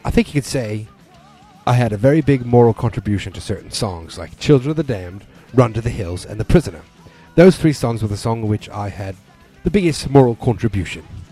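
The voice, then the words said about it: Poor put-on British accent. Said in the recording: “my horrible British accent”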